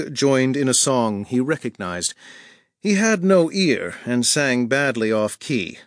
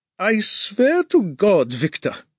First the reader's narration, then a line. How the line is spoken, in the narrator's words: he said, after a fit of laughter